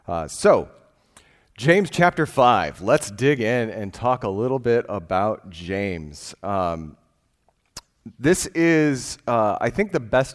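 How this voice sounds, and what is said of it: Congested voice, sounds like a cold. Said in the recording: “I have a cold this week. I'm on Sudafed”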